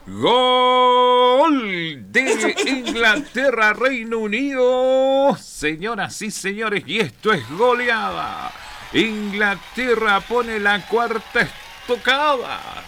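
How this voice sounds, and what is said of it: Excited football match commentator voice. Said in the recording (Spanish): “poner voz de mundialero”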